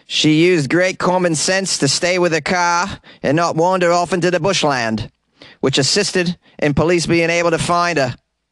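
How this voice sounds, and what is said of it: Exaggerated Australian accent. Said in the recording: “This is the most ridiculous Australian accent ever. I normally don't talk like this”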